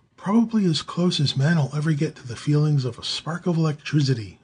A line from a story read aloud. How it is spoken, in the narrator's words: the midget replied